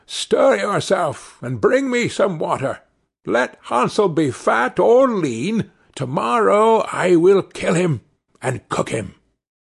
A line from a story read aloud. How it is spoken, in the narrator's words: she cried to the girl